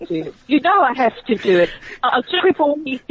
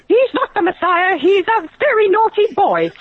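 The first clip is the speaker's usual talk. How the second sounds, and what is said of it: Imitates a comedy film mother character. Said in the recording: “you do the mother better.”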